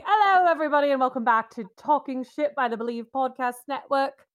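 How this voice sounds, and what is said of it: Put-on British accent. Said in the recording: “I promise not to do this accent the entire time ... making a British accent”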